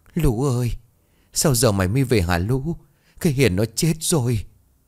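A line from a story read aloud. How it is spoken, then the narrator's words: Tearful whimper. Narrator (Vietnamese): Bà Nhung mếu máo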